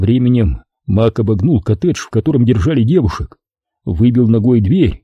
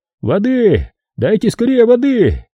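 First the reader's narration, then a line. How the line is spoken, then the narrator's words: Shouted. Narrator (Russian): закричал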